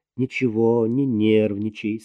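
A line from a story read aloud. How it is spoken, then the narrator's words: Calm. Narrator (Russian): спокойно сказала Марина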